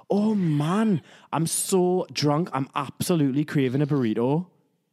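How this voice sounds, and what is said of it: Put-on Geordie accent. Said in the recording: “the Geordie accent, which is the Newcastle accent that no one understands”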